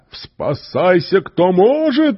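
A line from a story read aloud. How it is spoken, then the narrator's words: Hurried shout. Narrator (Russian): успел крикнуть Лапетуб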